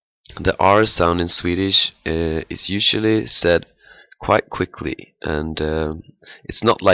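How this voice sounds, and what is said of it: Usual voice. Nothing is said of it.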